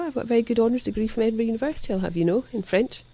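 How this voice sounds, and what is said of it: Scottish accent. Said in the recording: “a person with a Scottish accent ... a Scottish accent when I speak French too, actually. ... Very hard to shake.”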